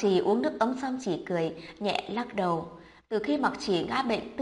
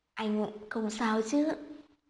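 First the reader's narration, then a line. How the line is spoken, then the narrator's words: Soft concerned question. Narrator (Vietnamese): Tư Tồn khẽ hỏi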